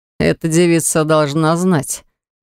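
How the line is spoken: Through gritted teeth. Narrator (Russian): процедил белобрысый

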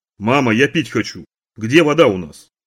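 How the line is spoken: Loud. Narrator (Russian): Громко сказал

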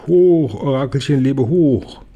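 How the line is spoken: Dragon calling. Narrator (German): Ein Drache ruft

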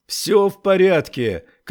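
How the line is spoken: Shouting while running. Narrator (Russian): кричал он на бегу

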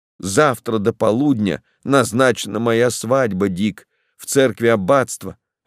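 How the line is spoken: Plain. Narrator (Russian): ответила она

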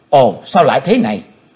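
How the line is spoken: Old woman's shout. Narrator (Vietnamese): Tiếng quát của lão ấy bà

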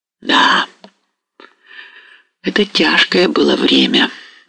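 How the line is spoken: Sigh. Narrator (Russian): вздохнул Мазепа

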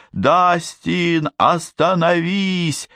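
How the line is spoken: Screamed. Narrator (Russian): завопила

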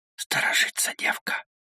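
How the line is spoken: Whispered. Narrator (Russian): прошептал Алексашка

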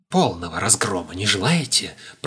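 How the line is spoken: Whispered. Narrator (Russian): прошептал Пасквилянт

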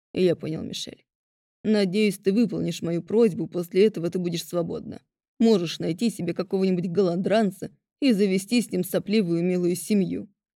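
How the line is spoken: Growled. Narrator (Russian): рыкнул Кофис

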